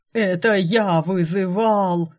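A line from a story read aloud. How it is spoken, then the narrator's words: Demon's roar from afar. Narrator (Russian): проревел демон из кухни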